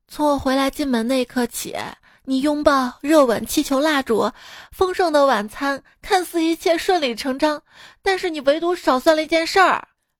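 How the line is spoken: Wife, long sigh. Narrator (Chinese): 老婆长叹一口气说

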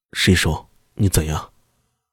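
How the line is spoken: Low voice. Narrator (Chinese): 陈明 低声道

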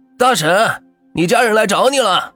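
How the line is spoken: Shouting. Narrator (Chinese): 瘦子冲着里边大喊着

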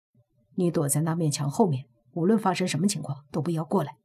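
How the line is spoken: Low hushed voice. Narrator (Chinese): 莫白压低声音

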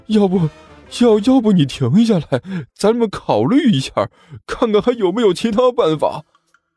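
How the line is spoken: Miserable, whining. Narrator (Chinese): 那人哭丧着脸说道

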